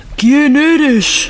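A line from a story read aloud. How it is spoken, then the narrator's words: Thunderous roar. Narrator (Spanish): rugió el emperador con voz de trueno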